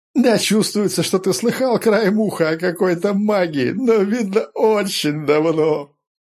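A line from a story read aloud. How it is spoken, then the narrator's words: Group laughing. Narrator (Russian): хохотали Сиды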